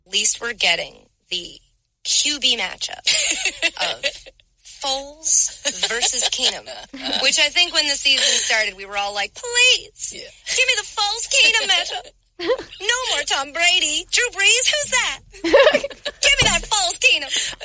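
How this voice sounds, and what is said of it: Damsel voice turning Southern. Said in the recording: “I love this accent ... she didn't even start Southern. No. It got Southern a little bit at the end ... more distressed damsel ... Southern Belle”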